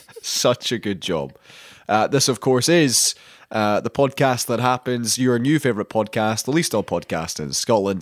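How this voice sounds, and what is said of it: Congested, sick-sounding voice. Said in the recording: “I have a cold”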